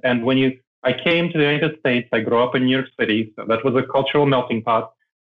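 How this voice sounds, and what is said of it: Non-mainstream American, foreign accent. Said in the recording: “people still hear I have an accent, yes ... I don't have a mainstream American accent”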